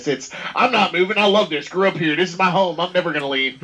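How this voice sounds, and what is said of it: Put-on Southern US accent. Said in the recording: “I like his southern accent. That was pretty good.”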